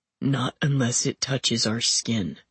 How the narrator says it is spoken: he whispered back

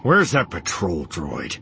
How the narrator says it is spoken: Chewie growled back at him

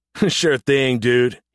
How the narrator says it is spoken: he chuckled

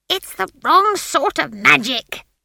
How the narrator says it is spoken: screeched Granny

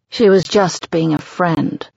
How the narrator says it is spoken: he says coolly

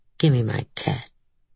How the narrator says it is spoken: his voice broke

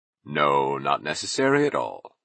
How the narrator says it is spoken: said Tui cheerfully

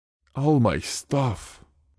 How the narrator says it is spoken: Kevin said mournfully

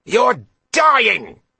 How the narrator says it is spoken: Roth shouted

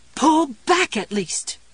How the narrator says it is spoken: the mother voice screamed

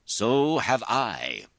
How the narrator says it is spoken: said Sir George scornfully

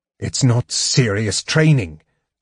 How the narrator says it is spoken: Tanis began angrily

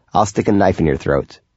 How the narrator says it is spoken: Mad Dog said coolly

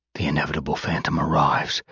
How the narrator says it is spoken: Randedly whispered, his smile a coy one

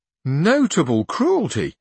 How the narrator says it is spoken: exclaimed Sancho

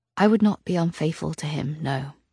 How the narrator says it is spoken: Ariadne said quietly

